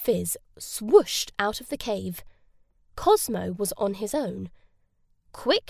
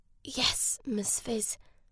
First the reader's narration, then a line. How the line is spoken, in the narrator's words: whispered Cosmo